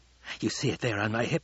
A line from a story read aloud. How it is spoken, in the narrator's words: Fade Rotha whispered